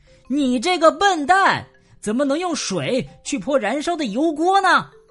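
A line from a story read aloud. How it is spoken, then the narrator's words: Furious shouting. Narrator (Chinese): 大瞎猫气急败坏的大叫道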